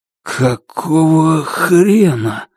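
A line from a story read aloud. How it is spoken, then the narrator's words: Breathed out. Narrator (Russian): выдохнул он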